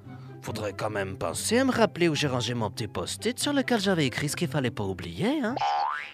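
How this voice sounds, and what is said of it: Exaggerated put-on Belgian French accent. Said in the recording (French): “L'accent belge, comment ça ? Too much ?”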